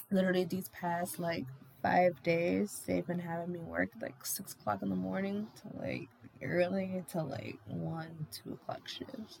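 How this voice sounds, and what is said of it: Tired, worn-out voice. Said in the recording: “my body's beating here and my voice is numb. I'm exhausted.”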